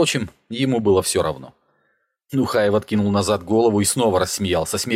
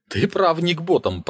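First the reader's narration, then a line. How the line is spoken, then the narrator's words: Grumble after laughing, smoky. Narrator (Russian): проворчал, закончив смеяться и выдохнув дым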